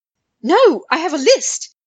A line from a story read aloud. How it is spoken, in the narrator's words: Harry blurted